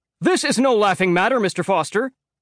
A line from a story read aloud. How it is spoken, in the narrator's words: yells